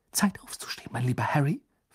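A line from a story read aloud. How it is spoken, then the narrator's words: Whispered. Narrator (German): flüsterte sie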